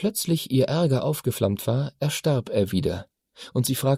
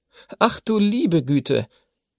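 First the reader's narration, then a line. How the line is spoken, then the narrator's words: Dry laugh. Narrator (German): Sie lachte trocken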